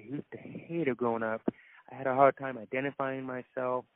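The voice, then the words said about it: Deaf accent. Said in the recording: “I have a deaf accent on this show”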